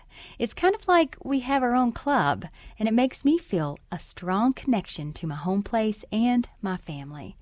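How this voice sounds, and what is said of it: Appalachian West Virginia twang. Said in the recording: “for many Appalachians, including myself, our unique dialects and accents ... my twang slang ... For West Virginia Public Broadcasting”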